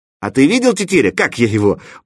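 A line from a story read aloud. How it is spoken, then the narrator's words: Exclaimed. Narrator (Russian): воскликнул он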